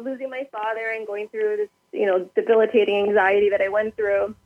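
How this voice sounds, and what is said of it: Emotional, tearful voice. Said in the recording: “I'm going to get emotional ... You're allowed to cry. They're happy tears in a way.”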